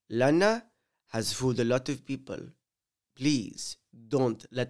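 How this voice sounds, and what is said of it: Put-on Spanish accent. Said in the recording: “let me whip out my Spanish accent. This one is a good one because I spent many years in Spain and I'm actually, quite good at speaking Spanish myself.”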